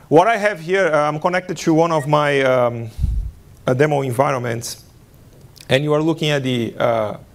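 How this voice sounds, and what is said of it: Brazilian-accented English. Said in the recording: “a Brazilian accent ... I'm Brazilian”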